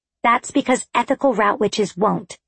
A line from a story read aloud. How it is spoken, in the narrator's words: said Rose firmly